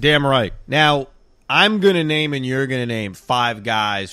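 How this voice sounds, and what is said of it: Usual voice. Nothing is said of it.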